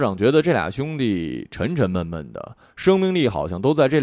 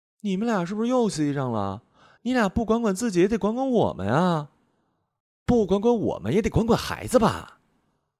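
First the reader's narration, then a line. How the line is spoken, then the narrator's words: Loud rapid women's voices. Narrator (Chinese): 两个女人声音亮，话密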